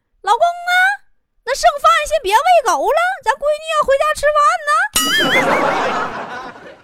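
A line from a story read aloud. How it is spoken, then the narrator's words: Shouting over the phone. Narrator (Chinese): 电话那头啊，坨坨他妈就跟他爸喊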